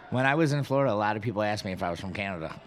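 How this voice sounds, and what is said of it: Nasal Western New York accent. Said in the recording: “I have a very Western New York accent ... It's harsh. It's sharp. ... It's nasally.”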